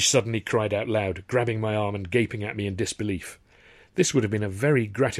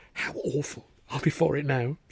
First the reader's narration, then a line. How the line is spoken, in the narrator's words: she whispered